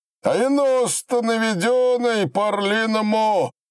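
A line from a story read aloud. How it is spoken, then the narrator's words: Shouting. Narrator (Russian): кричал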